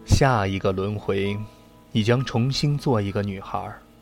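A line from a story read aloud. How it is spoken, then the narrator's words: Soft sighing. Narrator (Chinese): 佛祖轻轻的叹了口气，说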